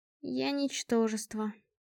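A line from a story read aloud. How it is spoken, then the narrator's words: Sad. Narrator (Russian): грустно объявила Альда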